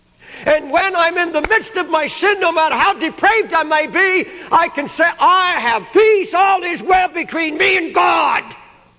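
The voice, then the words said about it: Raised, loud preaching voice. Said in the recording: “I'm raising my voice.”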